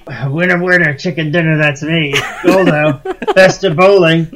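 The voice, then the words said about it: Imitates a cartoon character's voice. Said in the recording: “It's a very good Goldo impression. ... Sounds just like him.”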